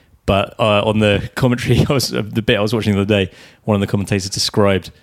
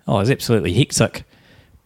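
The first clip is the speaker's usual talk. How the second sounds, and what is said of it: Put-on New Zealand accent. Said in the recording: “my favourite word in a New Zealand accent is hectic”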